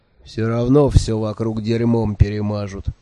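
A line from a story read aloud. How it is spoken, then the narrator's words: Gloomy angry promise. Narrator (Russian): мрачно пообещал сердитый Бегли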